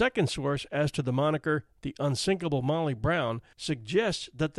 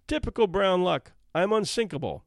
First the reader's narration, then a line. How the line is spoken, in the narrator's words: Margaret, stepping off the Carpathia onto the safe shore of New York, boldly exclaimed